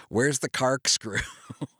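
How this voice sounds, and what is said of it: Imitates another person's weird accent. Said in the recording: “he's got like this weird accent ... Crispin Glover's accent”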